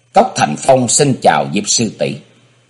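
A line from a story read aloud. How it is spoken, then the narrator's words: Quiet voice. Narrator (Vietnamese): nhỏ giọng nói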